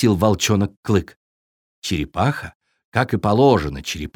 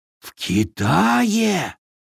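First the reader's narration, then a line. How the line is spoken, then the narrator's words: Breathed in chorus, animals. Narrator (Russian): хором выдохнули звери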